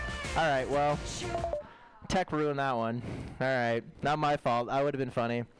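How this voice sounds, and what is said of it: Usual voice. Nothing is said of it.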